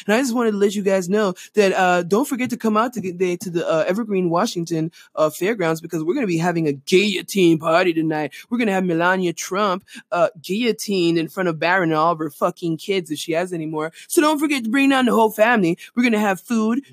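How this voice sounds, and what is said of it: Bad radio jockey impression. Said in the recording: “really bad radio jockey impression.”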